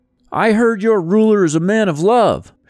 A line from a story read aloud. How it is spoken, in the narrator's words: shouted a man